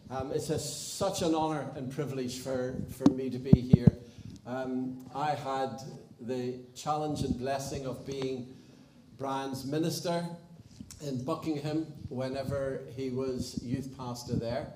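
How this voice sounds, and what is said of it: Irish accent. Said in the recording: “get used to an Irish accent”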